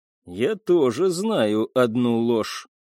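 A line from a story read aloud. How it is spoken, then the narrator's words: Cold, measured tone. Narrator (Russian): холодным и взвешенным тоном заговорил Сэмсон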